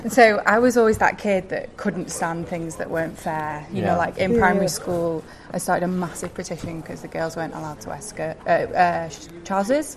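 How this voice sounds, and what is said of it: Northern English accent. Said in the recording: “I'm also from the north. I don't know if you can tell my accent.”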